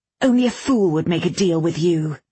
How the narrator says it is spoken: Bradamant snapped

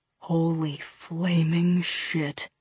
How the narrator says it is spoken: Fred whispered

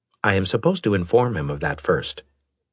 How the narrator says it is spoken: Galleon said

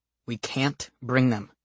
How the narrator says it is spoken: my father says firmly

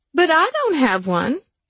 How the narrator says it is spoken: Jenna whined

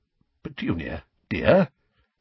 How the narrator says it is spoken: said Uncle Vernon timidly

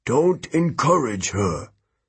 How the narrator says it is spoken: Hermes grumbled

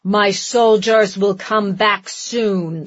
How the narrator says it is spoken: the giant growled

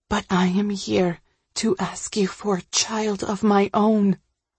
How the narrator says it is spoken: I whisper

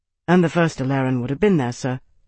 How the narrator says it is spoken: Tarvi replied

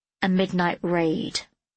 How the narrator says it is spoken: Emile replied

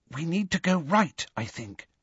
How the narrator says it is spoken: whispered Hermione

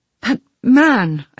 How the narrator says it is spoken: said, nearly choking

